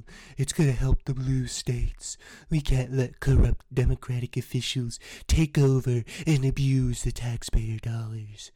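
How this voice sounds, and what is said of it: Imitates another person's voice. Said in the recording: “I think that was a little better, my Trump impression”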